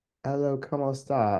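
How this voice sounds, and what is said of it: Spanish spoken in a bad British accent. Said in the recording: “speak Spanish in a British accent? ... that's, probably horrible ... it's obviously bad. It's Spanish in a British accent.”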